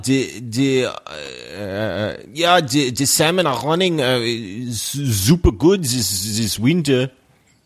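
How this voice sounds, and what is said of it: Put-on Finnish accent. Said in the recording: “Give me a quick Finnish accent. ... Finnish? ... And you think Finland?”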